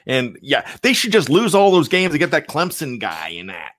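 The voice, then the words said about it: Put-on Pittsburgh Yinzer accent. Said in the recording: “that's my best accent, by the way ... my Yinzer accent's not good? ... None of my accents are good, but my Yinzer one I can do.”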